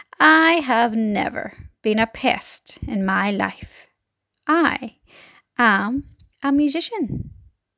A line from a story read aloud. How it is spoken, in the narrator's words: he said, speaking in a deep, slow, scornful voice